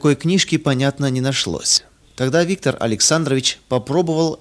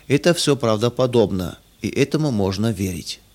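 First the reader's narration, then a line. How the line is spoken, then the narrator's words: Inner voice whispering. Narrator (Russian): какой-то внутренний голос шептал ему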